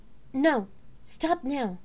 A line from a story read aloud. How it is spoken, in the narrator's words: she said urgently